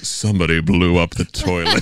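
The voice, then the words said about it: Imitates another person's deep voice. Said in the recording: “In that deep voice of his.”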